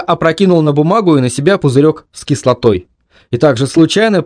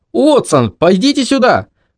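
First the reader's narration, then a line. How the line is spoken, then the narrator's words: Shouting. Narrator (Russian): Белл закричал в него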